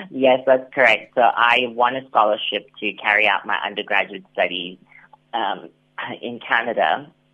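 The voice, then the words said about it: Slight North American twang. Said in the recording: “I'm picking up a bit of a twang there”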